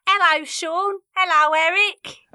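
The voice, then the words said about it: Impression of her mum. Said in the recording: “can do a Mum impersonation”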